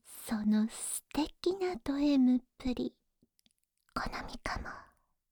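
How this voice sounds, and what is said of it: Whispering voice. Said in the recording (Japanese): “ささやき声”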